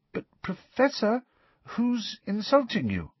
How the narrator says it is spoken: asked Parvati timidly

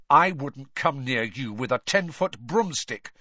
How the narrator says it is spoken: said Harry furiously

